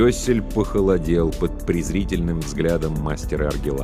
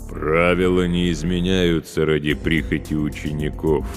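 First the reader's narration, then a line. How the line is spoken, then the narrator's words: Booming drone. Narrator (Russian): прогудел он головой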